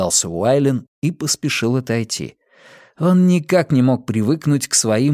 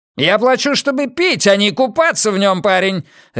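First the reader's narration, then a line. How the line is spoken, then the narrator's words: Barked. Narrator (Russian): рявкнул Смит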